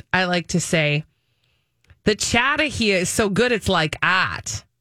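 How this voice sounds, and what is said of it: Put-on Boston accent. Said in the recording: “In my Boston accent”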